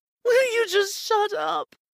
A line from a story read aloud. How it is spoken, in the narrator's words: She yelled